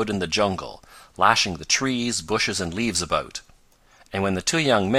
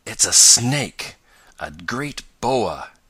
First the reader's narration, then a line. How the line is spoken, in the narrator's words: gasped Tom